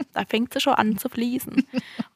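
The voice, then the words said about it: Slips into regional dialect. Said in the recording (German): “habe ich gerade wirklich in Dialekt geredet”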